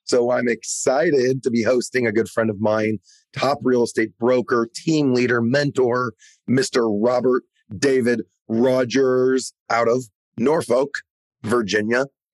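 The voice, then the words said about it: Hoarse, fading voice. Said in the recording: “As many of you probably already hear, I'm losing my voice.”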